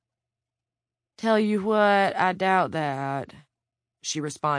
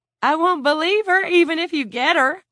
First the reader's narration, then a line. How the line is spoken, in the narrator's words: Lila cried